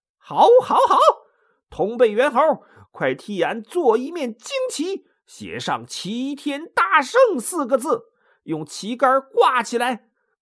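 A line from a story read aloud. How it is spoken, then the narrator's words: Loud shout. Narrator (Chinese): 他高声叫道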